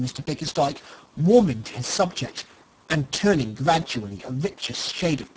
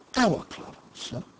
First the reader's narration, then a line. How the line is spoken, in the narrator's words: murmured Smith